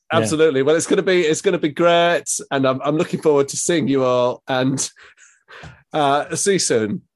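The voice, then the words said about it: Put-on Scottish accent, slipping. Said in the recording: “Sounding more and more like Bob Mortimer by the second... the Scottish accent is significantly harder than ... ever thought it could be to keep up for a sustained period of time”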